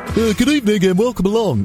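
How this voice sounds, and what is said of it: Cheesy, high, over-optimistic DJ voice. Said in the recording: “sometimes I get a bit cheesy ... other DJs in Britain and Canada do tend to be a little bit, high ... Ridiculously over-optimistic”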